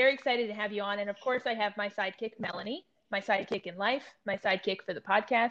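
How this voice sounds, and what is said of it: Usual voice. Nothing is said of it.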